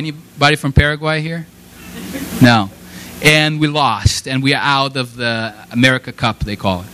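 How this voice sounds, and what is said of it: Brazilian-accented English. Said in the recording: “He has that little accent... I'm from Brazil”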